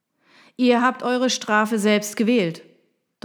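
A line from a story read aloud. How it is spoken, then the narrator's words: Thundering. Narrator (German): donnerte er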